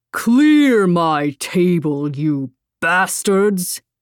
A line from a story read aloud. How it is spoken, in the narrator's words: a booming voice said